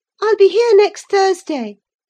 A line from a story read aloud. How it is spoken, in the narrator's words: she cried